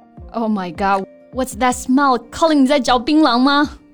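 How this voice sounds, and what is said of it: Raised, loud voice. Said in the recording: “raising your voice”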